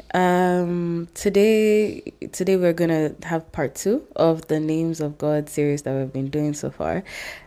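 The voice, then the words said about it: Congested voice from a cold. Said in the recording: “I have a cold”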